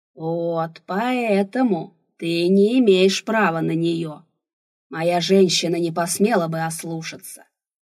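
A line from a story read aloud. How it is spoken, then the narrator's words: Roaring. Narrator (Russian): взревел Рурк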